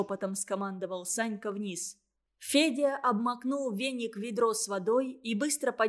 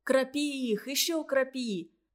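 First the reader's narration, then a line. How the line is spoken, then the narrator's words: Sympathetic, from below. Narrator (Russian): сочувственно посоветовал снизу Федя, высовывая нос из платка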